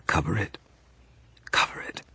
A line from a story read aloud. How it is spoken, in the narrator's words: she whispered